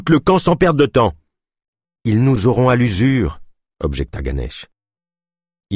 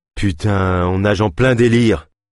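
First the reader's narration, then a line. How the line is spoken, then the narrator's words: Sighed. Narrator (French): soupira Leif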